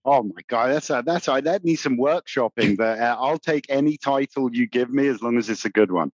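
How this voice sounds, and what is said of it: American accent. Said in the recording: “With that beautiful American accent.”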